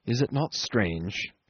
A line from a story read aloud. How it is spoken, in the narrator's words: he went on in a gentle, almost yearning tone